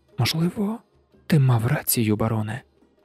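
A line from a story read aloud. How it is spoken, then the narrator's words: Whispered. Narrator (Ukrainian): прошепотіла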